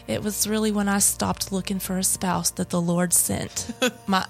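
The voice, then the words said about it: Put-on accent for a quote. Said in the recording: “That accent is just perfect.”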